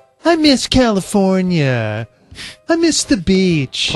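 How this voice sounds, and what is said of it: Usual voice. Nothing is said of it.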